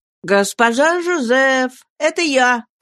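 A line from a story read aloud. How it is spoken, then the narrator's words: Calling out. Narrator (Russian): крикнул Клод привратнице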